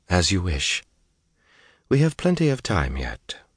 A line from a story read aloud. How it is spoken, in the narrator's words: she sighed